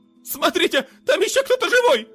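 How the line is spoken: Shrill shriek. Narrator (Russian): Визгливо вскрикнул кто-то из группы, собравшихся в центре людей

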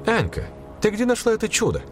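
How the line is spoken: Exclaimed. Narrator (Russian): воскликнула зав

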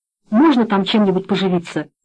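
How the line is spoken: Quick question. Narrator (Russian): быстро спросил Слива

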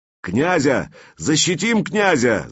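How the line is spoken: Shouting. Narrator (Russian): закричал варяжка

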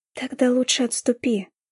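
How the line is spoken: Tender. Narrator (Russian): ласково сказала я

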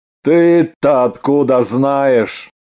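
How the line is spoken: Gloomy question. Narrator (Russian): мрачно спросил Ганин

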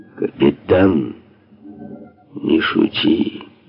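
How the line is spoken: Quiet, menacing. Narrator (Russian): произнес тихо, но с угрозой

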